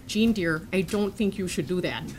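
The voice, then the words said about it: Imitated Midwestern accent. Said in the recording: “she has a Midwestern accent”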